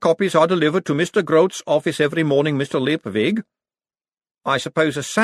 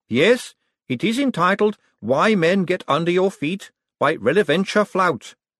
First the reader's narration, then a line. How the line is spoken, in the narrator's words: said Gladys earnestly